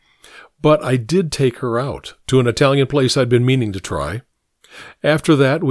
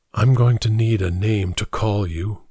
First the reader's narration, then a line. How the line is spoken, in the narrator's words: whispered